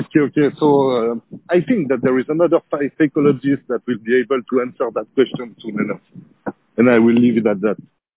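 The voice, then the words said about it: Accent likened to Pepe Le Pew. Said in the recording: “How could you not fall for that accent if you're a woman? ... someone won't say that I sounded like Pepe Le Pew ... Pepe has more of a Parisian accent.”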